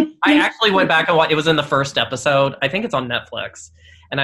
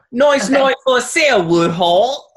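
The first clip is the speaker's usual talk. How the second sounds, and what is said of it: Put-on Mary Poppins-style British accent. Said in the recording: “I'll do it for you in my accent right now ... I brought a very Mary Poppins-esque”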